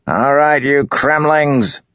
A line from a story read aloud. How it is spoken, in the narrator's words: Gaz bellowed